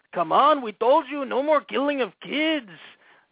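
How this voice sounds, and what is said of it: Botched Middle Eastern accent, sounds Mexican. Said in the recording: “Is that Middle Eastern accent? No, that was a miserable fail. I turned it into, like, a Mexican dude from Compton. ... I just suck at accents.”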